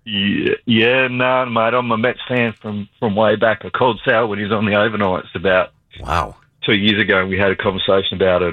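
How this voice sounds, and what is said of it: Australian accent. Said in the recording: “calling from Australia ... with his general manager of the Nets impersonation”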